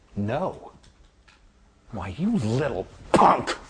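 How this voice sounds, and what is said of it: Angry shouting. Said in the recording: “Stop yelling!”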